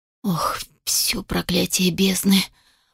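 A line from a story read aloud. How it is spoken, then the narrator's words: Stunned whisper. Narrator (Russian): прошептал пораженно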